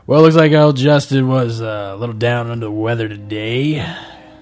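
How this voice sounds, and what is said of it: Shock jock radio host voice. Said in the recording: “doing a shock jock impression.”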